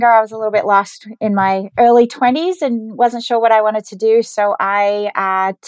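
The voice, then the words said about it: Australian accent. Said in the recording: “I also have an accent ... I grew up in Geelong, Australia”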